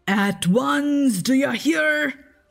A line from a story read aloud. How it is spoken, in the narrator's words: cried Peter